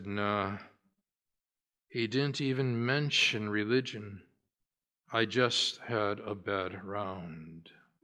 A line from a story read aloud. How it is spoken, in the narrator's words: heaved an embarrassed sigh and said